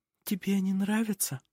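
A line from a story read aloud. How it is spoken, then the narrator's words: Whisper. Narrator (Russian): прошептала она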